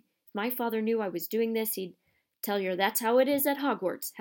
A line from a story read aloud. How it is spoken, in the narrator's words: Hagrid growled